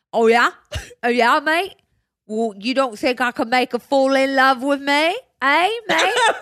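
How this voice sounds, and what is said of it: Put-on accent. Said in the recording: “Accent.”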